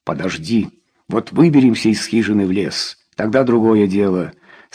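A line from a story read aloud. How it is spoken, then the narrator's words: Plain. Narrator (Russian): сказал он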